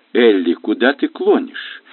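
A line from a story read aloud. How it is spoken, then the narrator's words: Gentle inquiry. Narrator (Russian): мягко осведомился Бен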